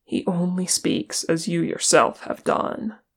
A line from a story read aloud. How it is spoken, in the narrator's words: Aragorn said wearily